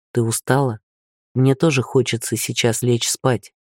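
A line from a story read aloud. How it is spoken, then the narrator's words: Quiet. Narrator (Russian): тихо сказал он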